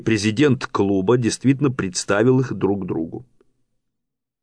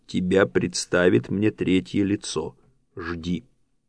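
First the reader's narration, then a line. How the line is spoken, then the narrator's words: Quiet. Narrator (Russian): негромко сказал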